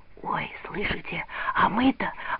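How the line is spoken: Whispering. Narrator (Russian): зашептала Лида

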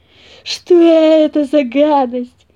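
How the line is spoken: Roaring, just recovered. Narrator (Russian): проревел Микель, когда пришел в себя

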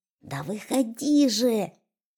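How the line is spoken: Hissed. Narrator (Russian): зашипел он

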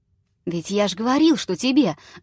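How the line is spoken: Exclamation. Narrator (Russian): воскликнула балдуй

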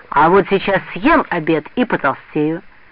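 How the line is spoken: Cheerful. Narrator (Russian): весело сказал

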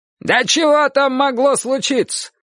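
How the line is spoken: Grandfather yelling. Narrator (Russian): заорал на нее дедушка

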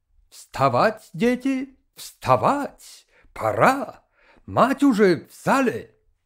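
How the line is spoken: Kind German-accented shout. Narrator (Russian): крикнул добрым немецким голосом

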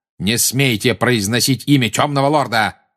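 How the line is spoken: Barking. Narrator (Russian): рявкнул Снег

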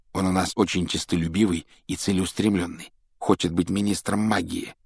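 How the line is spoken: Low-voiced explanation. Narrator (Russian): объяснил Рон друзьям вполголоса

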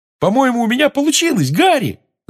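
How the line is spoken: Yelling. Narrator (Russian): завопил Симус

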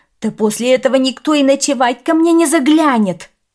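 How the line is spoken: Flustered shouting. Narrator (Russian): кричал растерявшийся хозяин

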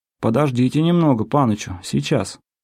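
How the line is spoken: Timid question. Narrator (Russian): робко спрашивал

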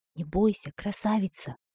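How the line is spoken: Whisper. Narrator (Russian): прошептал Джоанин

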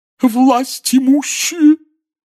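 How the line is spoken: Hollow sobbing proclamation. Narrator (Russian): глухим рыдающим голосом возвестила Трелони

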